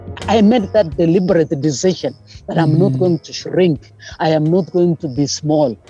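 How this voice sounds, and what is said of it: Speaks with a foreign accent. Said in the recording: “a black woman here who spoke with an accent”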